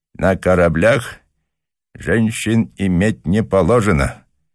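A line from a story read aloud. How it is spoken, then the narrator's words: Englishman speaking through teeth. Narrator (Russian): процедил англичанин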